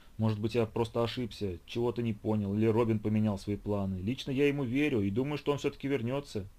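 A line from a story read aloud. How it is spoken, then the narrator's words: Babbling. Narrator (Russian): лепетал я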